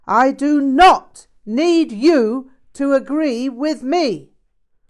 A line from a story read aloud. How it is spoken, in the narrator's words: Rinpoche yelled with great force